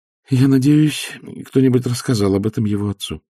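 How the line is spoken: Sighing. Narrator (Russian): вздохнула графиня

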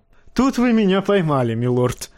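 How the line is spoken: Laughing. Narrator (Russian): засмеялся Тирион

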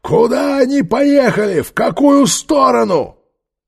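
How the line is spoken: Angry shout. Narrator (Russian): закричал в ее испуганное лицо

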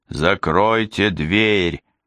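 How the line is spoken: Roaring. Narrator (Russian): взревел доктор Двали

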